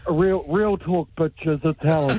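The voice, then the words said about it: Imitates another person's voice. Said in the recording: “that was a good impression. ... Very good.”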